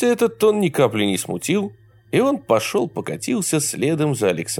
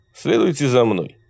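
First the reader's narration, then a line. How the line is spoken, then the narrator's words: Cold haughty command. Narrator (Russian): холодно и надменно велел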